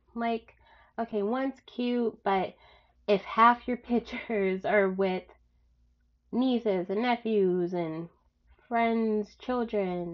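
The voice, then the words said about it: Congested, stuffed-up voice. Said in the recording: “I'm getting over a tiny cold. So if I sound stuffed up, that's what it's from.”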